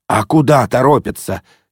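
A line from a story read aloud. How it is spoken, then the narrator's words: Angry remark. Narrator (Russian): сердито заметил папаша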